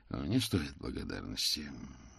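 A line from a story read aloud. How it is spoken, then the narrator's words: Gloomy reply. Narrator (Russian): мрачно отозвался Ваймс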